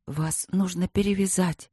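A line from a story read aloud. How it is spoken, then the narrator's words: Whisper. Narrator (Russian): прошептала она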